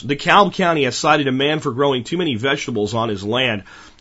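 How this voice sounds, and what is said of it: Slightly off voice from a cold. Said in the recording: “I'm still dealing with a cold or an allergy or something here, so my voice is a little off today”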